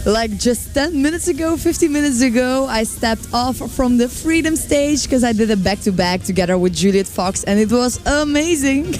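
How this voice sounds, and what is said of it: Hoarse, strained voice. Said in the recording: “I think I'm losing my voice. Is that because you were shouting so loud last weekend as well? ... I've been losing my voice for the entire week.”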